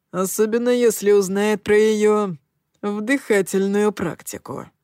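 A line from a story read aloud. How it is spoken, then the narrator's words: Wry snort. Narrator (Russian): хмыкнул Коул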